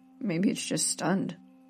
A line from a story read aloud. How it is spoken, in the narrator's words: mumbled Natalie in reply